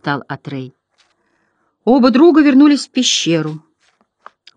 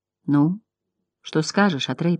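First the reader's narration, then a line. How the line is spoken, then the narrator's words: Whisper. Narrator (Russian): прошептал он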